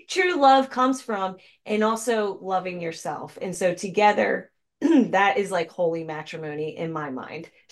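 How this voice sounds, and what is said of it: Strained, fading voice. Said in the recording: “I'm losing my voice because I've been channeling all day.”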